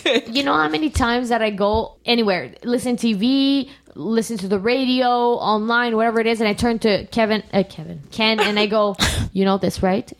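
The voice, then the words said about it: Hoarse, fading voice. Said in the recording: “I'm losing my voice... I'm losing my voice because I'm getting sick... it's just like a throat crap”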